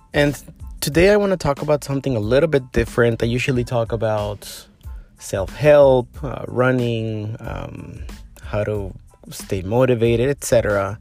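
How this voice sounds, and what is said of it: Soft voice, sore throat. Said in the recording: “my voice a little bit different, it's because I have a sore throat today, so I'm speaking a bit softer”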